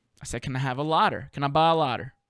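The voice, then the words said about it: Southern US dialect pronunciation. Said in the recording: “I have a little bit of a dialect problem whenever I'm in places that, you know, ain't the South”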